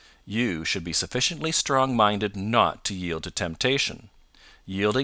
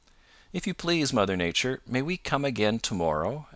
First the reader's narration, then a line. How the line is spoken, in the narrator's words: asked Peter